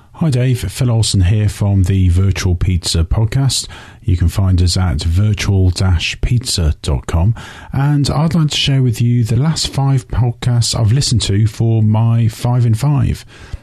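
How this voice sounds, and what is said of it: British accent. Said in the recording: “from across the pond ... everything sounds better with an accent”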